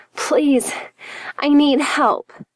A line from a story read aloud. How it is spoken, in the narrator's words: she groaned